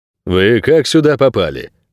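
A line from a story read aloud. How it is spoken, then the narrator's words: Stern question. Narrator (Russian): строго спросил Лис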